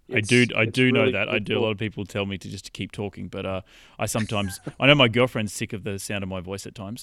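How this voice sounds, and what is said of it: Australian accent. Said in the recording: “I love talking to people with Australian accents. ... Americans love hearing British and Australian accents.”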